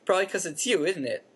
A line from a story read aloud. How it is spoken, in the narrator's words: said Ron, still chuckling